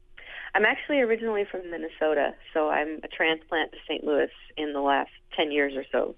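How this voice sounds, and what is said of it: Slight Minnesota accent in vowels. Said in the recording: “I hear a little bit of the accent ... it's in the O's.”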